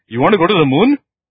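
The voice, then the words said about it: Imitated accent of a man. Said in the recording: “I'm trying to copy his accent.”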